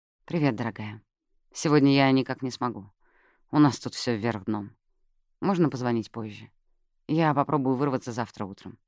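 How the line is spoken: Soft voice. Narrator (Russian): мягко произнес

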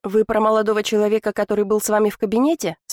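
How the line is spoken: Plain. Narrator (Russian): спросила Улита

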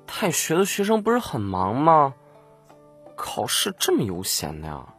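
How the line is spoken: Exasperated mutter. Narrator (Chinese): 展昭无语，忍不住嘀咕了一句

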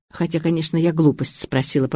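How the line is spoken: Mutter. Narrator (Russian): пробормотала я

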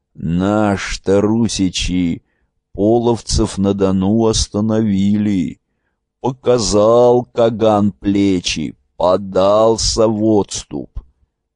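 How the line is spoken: Mumbling ancient old man. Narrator (Russian): Древний дед Вещун прошамкал

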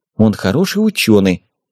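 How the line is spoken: Muttering. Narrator (Russian): пробормотала Вера

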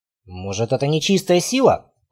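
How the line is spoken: Muttering. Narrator (Russian): пробормотал Рейнар

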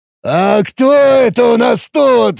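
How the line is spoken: Laughing loudly. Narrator (Russian): Расхохотавшись в голос, произнес Тарак

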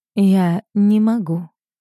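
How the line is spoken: Soft reply. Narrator (Russian): отвечаю, мягко

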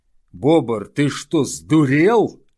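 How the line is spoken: Yelled. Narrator (Russian): завопил Тардус

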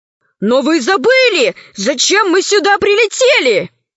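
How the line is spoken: Indignant shout. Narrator (Russian): закричал возмущенно Вага Бычий Хвост

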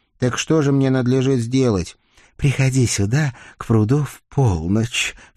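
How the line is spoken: Tearful sorrowful sigh. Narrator (Russian): все еще вытирая хрустальные слезки свои, вздохнула голубоглазая печальница

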